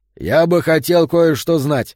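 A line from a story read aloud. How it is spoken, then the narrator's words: Plain. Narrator (Russian): сказал Йота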